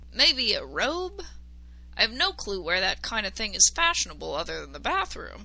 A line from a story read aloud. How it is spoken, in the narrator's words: he said a little too loudly